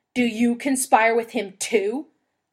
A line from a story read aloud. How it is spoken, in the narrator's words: Thorin bellowed